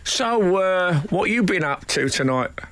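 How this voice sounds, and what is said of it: Put-on Cockney accent. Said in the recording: “I'm gonna try a Cockney accent.”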